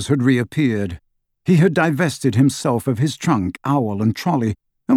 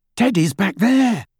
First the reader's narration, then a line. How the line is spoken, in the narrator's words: he said breathlessly